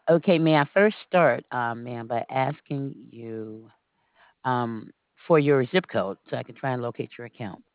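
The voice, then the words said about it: Slight southern drawl. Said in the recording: “they say I have a country accent ... You have a little bit of an accent there ... that southern drawl that's so genteel”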